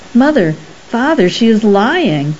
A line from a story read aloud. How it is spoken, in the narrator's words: I cried finally